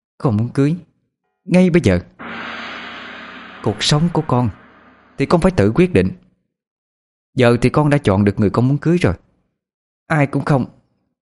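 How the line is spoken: Harsh stressed reply. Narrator (Vietnamese): Cô gằn giọng đáp

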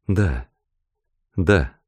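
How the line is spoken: Soft reply. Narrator (Russian): тихо ответила Роберта

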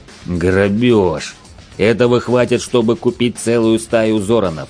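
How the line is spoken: Angry growl. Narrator (Russian): гневно зарычал бычара

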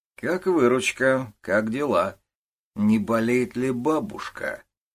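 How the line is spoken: Gentle questions, young men. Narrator (Russian): молодые люди с недобрыми глазами и ласково спрашивали

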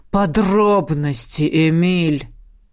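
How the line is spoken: Barked. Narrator (Russian): рявкнул император

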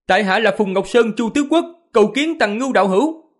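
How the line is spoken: Raised voice. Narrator (Vietnamese): gã cao giọng, nói

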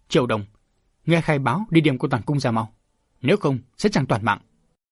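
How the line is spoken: Loud stern shout. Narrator (Vietnamese): Đỗ Ngọc chỉ đứng đó quát lớn

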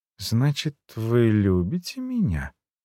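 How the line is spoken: Soft questioning. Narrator (Russian): мягко уточнила она

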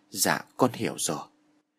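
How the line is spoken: Gentle, soft. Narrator (Vietnamese): Nó nhẹ nhàng

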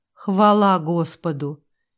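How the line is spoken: Relieved exhale. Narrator (Russian): Герцог с облегчением выдохнул

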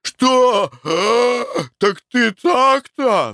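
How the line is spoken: Roaring. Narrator (Russian): взревел Николай Иванович

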